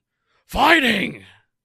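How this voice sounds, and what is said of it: Impression of UFC announcer. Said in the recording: “complimented me on my, I forget what his name is, the announcer for UFC. So I'm going to do it again ... That wasn't as good ... doing an impersonation of that person”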